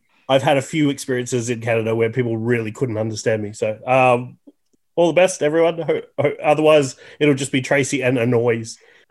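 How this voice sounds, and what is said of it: Broad Australian accent. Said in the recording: “you have an accent ... my very broad Australian accent”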